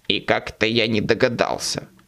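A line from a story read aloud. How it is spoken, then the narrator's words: Snort. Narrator (Russian): фыркнул Боб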